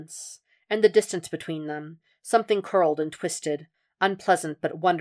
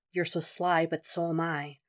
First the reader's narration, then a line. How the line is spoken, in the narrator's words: Will murmured, taunting